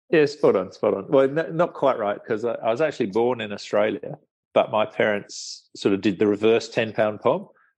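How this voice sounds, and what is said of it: English accent. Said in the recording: “You've got a lovely English accent”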